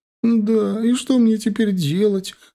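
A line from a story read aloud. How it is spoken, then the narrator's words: Sobbing. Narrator (Russian): опять начала всхлипывать Женя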